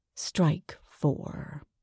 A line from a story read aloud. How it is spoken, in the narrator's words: whispers ominously into my ear